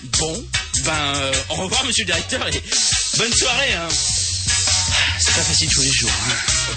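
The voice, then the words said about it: Exaggerated put-on Belgian accent. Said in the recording (French): “tiens bien ton accent belge, s'il te plaît ... on doit tous parler avec l'accent belge à la radio”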